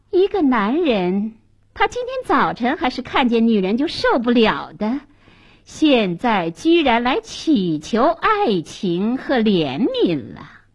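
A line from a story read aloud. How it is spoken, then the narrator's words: Scornful cold laugh. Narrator (Chinese): 女店主冷笑了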